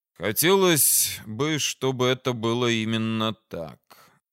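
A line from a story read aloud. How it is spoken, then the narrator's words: Sighing. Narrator (Russian): Вздохнул я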